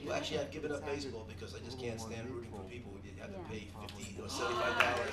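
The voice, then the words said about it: New York or Boston accent. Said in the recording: “You've always talked kind of funny to me. ... Is that a New Yorker accent? ... that's actually a Boston accent”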